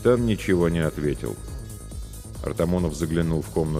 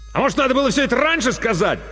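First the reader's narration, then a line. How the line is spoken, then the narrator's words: Angry bark from corridor. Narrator (Russian): зло рявкнул Артамонов из коридора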